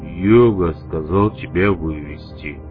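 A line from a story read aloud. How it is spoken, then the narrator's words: Deep voice, imitating someone. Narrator (Russian): пробасил он, явно подражая большаку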